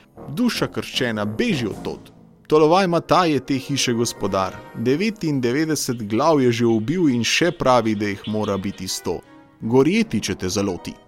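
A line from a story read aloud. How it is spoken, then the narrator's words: Calling out. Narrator (Slovenian): zaklicala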